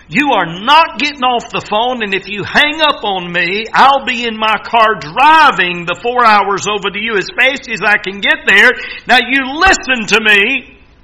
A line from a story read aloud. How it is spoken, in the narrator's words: he screamed at me